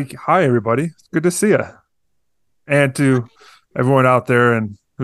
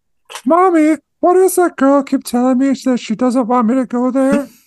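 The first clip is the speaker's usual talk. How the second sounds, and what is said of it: Imitates a movie character's voice. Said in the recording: “The best Bob impression. ... You have the whole show in that voice. ... You have the best Bob voice. ... A better Bob than Bob.”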